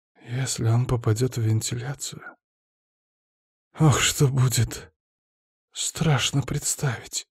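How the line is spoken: Muttered. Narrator (Russian): пробормотал заведующий

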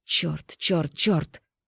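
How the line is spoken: Unintelligible growl. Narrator (Russian): Прорычав что-то невразумительное

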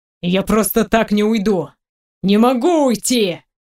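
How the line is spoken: Extremely loud yelling. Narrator (Russian): орет он настолько громко, что у меня волосы на затылке становятся дыбом

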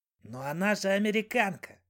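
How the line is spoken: Astonished whisper. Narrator (Russian): шепнул хозяину студент из Кот-д'Ивуара, явно пораженный ее фамильярностью

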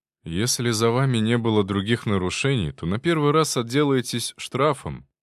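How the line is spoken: Weary policeman. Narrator (Russian): устало сказал полицейский

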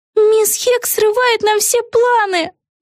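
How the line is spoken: Moaned. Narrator (Russian): простонала Вега

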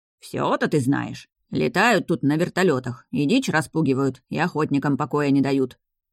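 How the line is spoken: Grumbling. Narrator (Russian): заворчал Хатко

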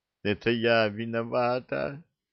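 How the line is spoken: Sobbing girl. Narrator (Russian): всхлипывая, сказала вдруг девушка

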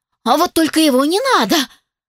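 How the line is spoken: Frightened, too-loud exclamation. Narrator (Russian): Испуганно выкрикнула я, получилось слишком громко и не слишком вежливо

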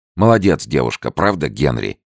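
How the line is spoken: Exclaiming. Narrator (Russian): воскликнул Фрэнсис

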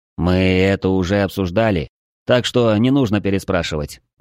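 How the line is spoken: Weary reply. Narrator (Russian): устало отозвался Влад

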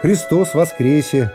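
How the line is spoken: Plain. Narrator (Russian): сказала Матрёна Павловна

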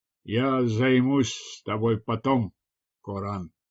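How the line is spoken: Displeased grumble. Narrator (Russian): недовольно проворчал он

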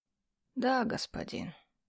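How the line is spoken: Plain. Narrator (Russian): ответил слуга

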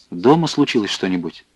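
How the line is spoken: Quick question. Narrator (Russian): быстро спросил он

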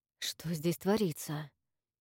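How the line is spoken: Muttering. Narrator (Russian): пробормотал Макс

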